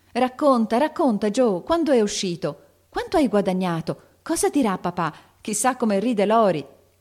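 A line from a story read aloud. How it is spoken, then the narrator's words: Shouting chorus. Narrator (Italian): gridavano tutte in coro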